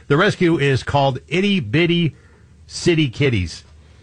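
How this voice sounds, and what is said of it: Speaks very slowly and deliberately. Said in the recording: “say this very slowly”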